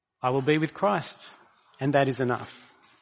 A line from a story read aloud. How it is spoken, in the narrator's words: calmly uttered his last words